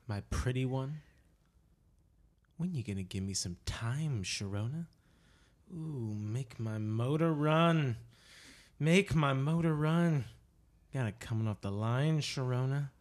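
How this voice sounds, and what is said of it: Creepy dramatic reading voice. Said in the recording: “are you going to do it in a creepy voice? ... Don't do it like that”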